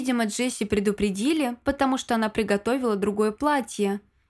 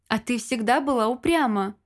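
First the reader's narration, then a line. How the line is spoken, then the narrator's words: Laughing. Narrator (Russian): рассмеялся его высочество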